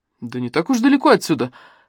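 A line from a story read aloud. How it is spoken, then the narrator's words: Snort. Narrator (Russian): хмыкнул Афанасьев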